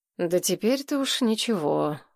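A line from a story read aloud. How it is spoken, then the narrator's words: Tired reply. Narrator (Russian): устало откликнулся Гурский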